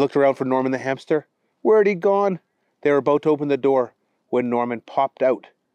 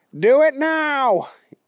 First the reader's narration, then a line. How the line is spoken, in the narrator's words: yelled Wild Wally